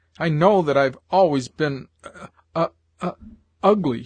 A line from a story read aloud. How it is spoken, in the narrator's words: she sobbed